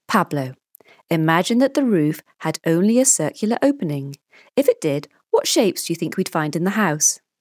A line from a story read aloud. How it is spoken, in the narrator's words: Paul asks